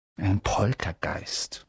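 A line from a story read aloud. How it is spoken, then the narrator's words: Whisper. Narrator (German): flüsterte Percy den Erstklässlern zu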